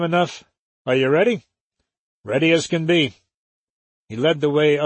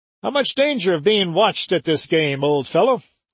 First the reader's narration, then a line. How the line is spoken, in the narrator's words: asked Wilbur cheerfully